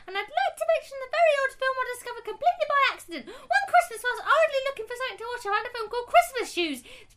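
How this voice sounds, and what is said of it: Very fast, high-pitched speech. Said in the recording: “I can't understand what you're saying. ... It's very fast and high. ... You have to do that in your own voice.”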